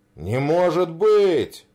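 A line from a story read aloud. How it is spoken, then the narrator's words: Exclaimed. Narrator (Russian): воскликнул Святой Василий, представитель Греции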